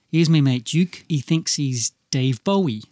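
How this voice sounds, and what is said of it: Put-on Liverpool accent. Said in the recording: “Is that your Liverpool accent? ... Yeah, it's as good as it gets.”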